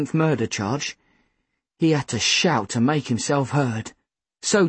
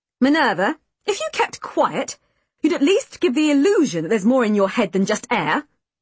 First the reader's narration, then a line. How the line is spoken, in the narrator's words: Mother snapped